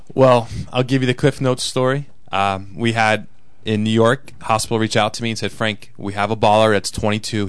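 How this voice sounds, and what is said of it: New York accent. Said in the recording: “we hear your accent. You're from New York.”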